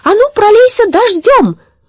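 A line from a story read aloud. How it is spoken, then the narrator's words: Shout. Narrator (Russian): крикнула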